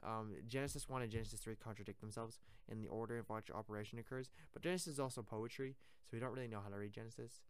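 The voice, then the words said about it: Tired, monotone voice. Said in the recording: “I'm actually really tired right now. ... I got really tired all of a sudden. ... my voice is really monotone.”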